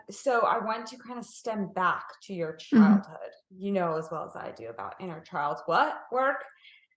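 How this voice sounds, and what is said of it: Slip into a British accent. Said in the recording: “That was like almost a British accent coming out... Work.”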